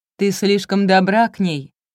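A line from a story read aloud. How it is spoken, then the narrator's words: Shouted. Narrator (Russian): крикнул Грант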